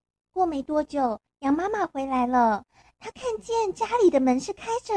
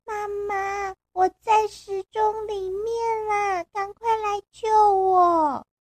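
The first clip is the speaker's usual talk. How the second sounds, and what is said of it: Small, tiny child-like voice. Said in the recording (Chinese): “小小的声音说”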